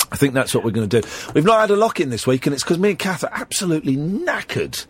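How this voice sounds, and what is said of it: Croaky voice from a cold. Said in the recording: “you sound like you're about to sort of give up the ghost and start croaking ... I've got a little bit of a cold. My falsetto has gone”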